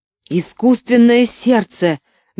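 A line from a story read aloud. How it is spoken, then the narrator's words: Furious shout. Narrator (Russian): бешено закричал Шрей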